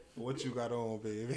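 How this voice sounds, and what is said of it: Put-on New Orleans accent, sultry. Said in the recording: “that voice, that New Orleans accent”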